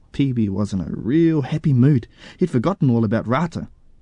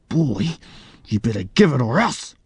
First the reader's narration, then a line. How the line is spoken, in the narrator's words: he snarled